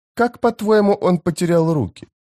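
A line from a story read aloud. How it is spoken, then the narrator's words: Innocent question. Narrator (Russian): спросила Фелисин невинным тоном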